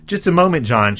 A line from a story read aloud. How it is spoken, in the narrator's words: says